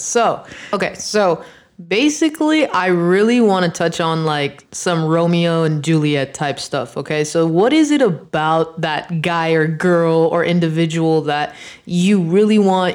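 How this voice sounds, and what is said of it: Slightly hoarse voice. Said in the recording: “These allergies are killing me ... My voice is a little hoarse at the moment.”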